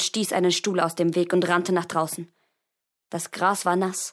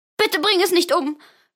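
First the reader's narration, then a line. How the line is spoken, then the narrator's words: Sobbing. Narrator (German): schluchzte sie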